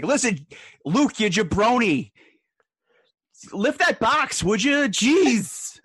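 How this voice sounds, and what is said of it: Put-on Philadelphia accent. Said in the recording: “Yoda actually speaks exactly like somebody from Philadelphia... great Philly impression”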